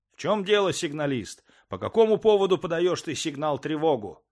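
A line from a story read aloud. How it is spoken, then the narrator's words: Angry question. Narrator (Russian): спросил меня сердито товарищ Чугунов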